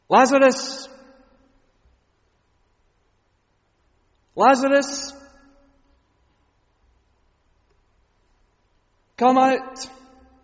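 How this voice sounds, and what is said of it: Loud shouted call. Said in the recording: “in a loud voice, Jesus cried out”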